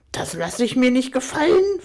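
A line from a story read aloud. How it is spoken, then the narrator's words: Angry hiss. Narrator (German): fauchte Tiffany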